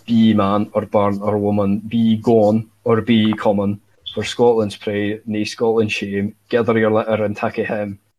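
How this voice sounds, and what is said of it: Poor put-on Scottish accent. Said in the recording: “if you say this in a Scottish accent ... that was a beautiful accent ... That was a fucking shite Scots like accent.”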